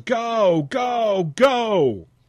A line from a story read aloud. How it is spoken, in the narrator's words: the crowd yells